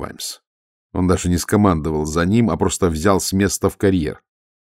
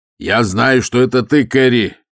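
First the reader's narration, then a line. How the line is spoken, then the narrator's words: Shout. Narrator (Russian): крикнул Ваймс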